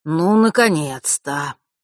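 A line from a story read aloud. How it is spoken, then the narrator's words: Relieved exhale. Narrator (Russian): с явным облегчением выдохнул Фэш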